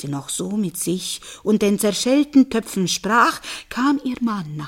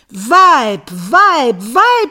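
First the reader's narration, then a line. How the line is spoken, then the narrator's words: Man screaming. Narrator (German): schrie der Mann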